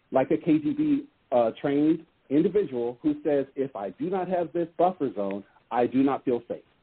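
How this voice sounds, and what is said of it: Jamaican accent. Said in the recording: “I catch the accent. I believe it's Jamaican.”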